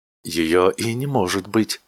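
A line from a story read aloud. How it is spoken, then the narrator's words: Almost confiding. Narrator (Russian): сказал охранник почти доверительным тоном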